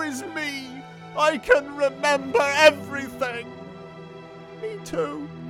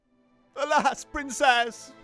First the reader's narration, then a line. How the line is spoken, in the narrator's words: Axel sobbed